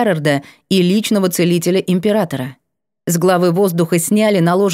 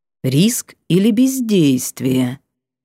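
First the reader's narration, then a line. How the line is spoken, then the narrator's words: Slow drawl. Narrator (Russian): медленно протянул он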